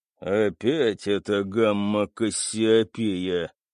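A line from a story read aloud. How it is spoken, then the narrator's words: Grumbled. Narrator (Russian): проворчал Кэп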